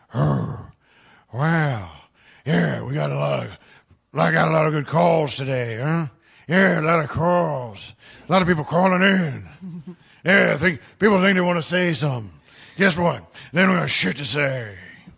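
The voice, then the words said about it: Secondhand Al Pacino impression. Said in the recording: “do his Al Pacino ... my impression of his impression ... that's an impression of a person”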